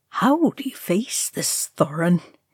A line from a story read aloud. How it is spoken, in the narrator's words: he rasped